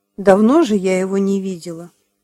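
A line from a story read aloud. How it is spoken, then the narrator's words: Plain. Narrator (Russian): сказала она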